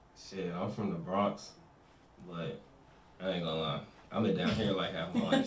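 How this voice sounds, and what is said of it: Slight New York accent. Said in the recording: “I hear accent too, low key. Oh, yeah, low.”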